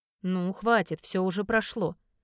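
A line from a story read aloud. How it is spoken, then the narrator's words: Quiet hoarse coaxing. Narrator (Russian): уговаривает Артем негромким хриплым голосом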